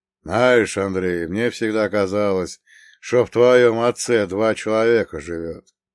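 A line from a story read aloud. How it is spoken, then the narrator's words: Snorting. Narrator (Russian): хмыкнул Прокоп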